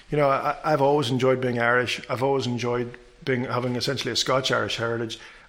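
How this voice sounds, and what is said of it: Northern Irish accent. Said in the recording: “as people can tell by your accent, from Ireland ... Northern Ireland”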